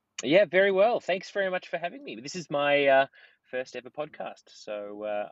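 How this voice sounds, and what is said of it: Australian accent. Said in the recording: “we actually have somebody with an Australian accent”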